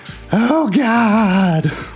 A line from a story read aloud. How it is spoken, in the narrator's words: a lady across the street scream